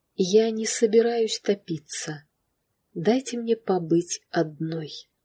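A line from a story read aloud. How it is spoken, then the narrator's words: Quiet calm request. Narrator (Russian): Клэр снова абсолютно тихим и спокойным голосом попросила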